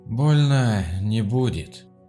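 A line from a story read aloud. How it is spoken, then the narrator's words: Tired voice. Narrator (Russian): сообщил усталым голосом доктор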